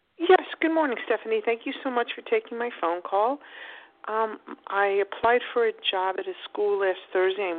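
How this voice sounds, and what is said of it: East Coast American accent. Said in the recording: “I love your accent. ... You sound like you're from somewhere on the East Coast.”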